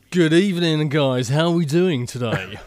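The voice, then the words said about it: Exaggerated radio announcer voice. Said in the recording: “put on my radio voice”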